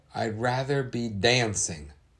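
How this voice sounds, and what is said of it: Put-on Southern accent. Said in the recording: “we got the southern accent out again”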